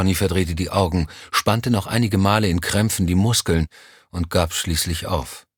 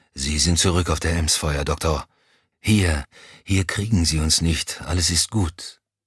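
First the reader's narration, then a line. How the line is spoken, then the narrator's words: Murmuring. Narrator (German): murmelte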